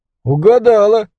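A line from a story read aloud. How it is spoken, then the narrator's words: Laughing. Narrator (Russian): засмеялся Петечка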